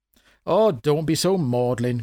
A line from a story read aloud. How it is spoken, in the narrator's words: Grandma said